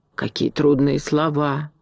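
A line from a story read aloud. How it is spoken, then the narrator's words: Reverent whisper. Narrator (Russian): с великим уважением прошептала ворона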